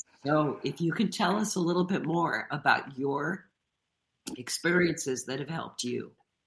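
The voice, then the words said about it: Congested voice from a cold. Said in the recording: “I have a cold ... I may be losing my voice.”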